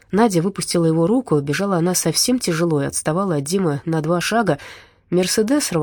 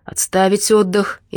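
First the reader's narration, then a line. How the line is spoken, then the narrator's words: Bellowing with full force. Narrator (Russian): изо всех сил гаркнул Дима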